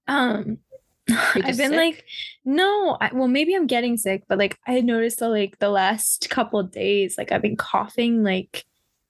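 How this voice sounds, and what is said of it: Hoarse, fading voice. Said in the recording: “Can you hear? I'm like losing my voice. ... Yeah, a little bit.”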